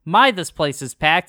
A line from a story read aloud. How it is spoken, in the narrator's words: Jesse says